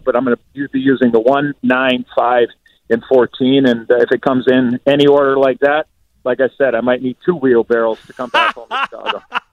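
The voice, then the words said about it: Excited, energetic voice. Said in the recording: “You can hear it in his voice, can't you? He's excited.”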